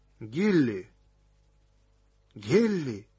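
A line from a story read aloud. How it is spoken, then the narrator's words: Quiet call. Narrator (Russian): тихо позвал Нок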